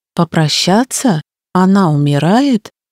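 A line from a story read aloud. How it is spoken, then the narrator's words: Forced calm. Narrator (Russian): он произнес спокойно, насколько это было в его силах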